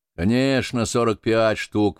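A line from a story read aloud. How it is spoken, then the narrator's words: Grumbling. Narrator (Russian): ворчал Сальтерс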